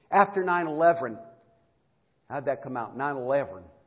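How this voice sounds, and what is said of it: Slight Southern American accent. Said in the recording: “Sound a little southern. My southern voice always tries to come out”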